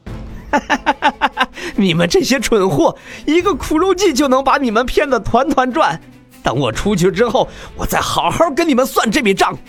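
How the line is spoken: Sudden loud laughter. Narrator (Chinese): 南宫明忽然大笑起来

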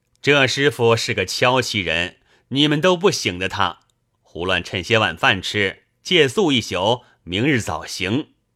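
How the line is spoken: Laughing. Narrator (Chinese): 燕青笑道

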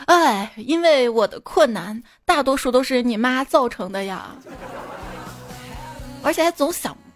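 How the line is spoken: Sighing. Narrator (Chinese): 我爸叹气的说

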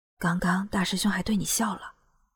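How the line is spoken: Lowered voice. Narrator (Chinese): 叶青压低了声音对苏林道

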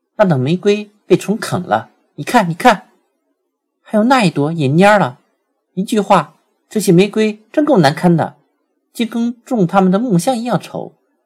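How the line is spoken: Sudden loud cry. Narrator (Chinese): 他忽然大声叫道

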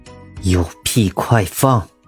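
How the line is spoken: Through gritted teeth. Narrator (Chinese): 唐盛咬牙切齿

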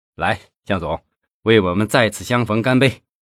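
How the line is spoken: Meaningful smile. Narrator (Chinese): 费庆奇 意味深长的笑笑

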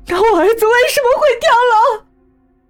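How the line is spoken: Anguished roar. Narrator (Chinese): 我睁着猩红的双眼，大吼

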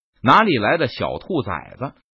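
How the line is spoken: Cold, furious. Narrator (Chinese): 陈宇气得火冒三丈，冷声说道

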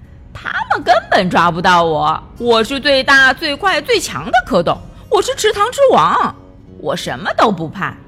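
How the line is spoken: Laughing loudly. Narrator (Chinese): 汤布大笑着说

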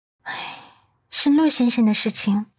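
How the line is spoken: Sighing. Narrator (Chinese): 阮南希叹息道

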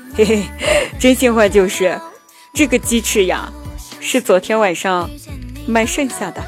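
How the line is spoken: Sheepish laughing reply. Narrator (Chinese): 老板憨憨的笑着回答说

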